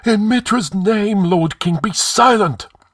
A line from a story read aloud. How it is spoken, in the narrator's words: It was the high priest of Mitra who cried out, and his countenance was ashen